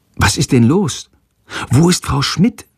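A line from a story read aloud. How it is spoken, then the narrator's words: Whispered. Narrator (German): flüstert Jendrik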